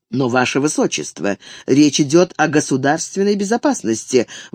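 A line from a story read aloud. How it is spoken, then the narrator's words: Restrained displeased objection. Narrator (Russian): возразил Меттерних, явно недовольный вмешательством Карла, но не решавшийся резко говорить с братом императора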